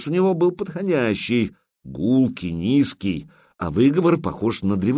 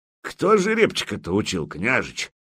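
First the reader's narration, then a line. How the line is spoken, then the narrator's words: Mocking question. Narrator (Russian): насмешливо спросил косматый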